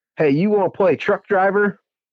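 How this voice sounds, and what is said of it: Put-on hick accent. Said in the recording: “if I can't remember what his accent really was, but he was kind of like, you know, hickish”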